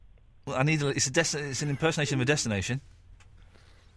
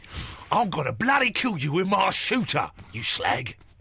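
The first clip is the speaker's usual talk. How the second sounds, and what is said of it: Put-on Cockney accent. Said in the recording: “Was that Cockney?”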